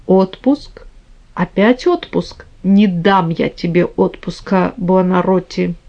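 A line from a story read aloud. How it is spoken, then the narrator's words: Barely audible repetition. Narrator (Russian): твердил чуть слышно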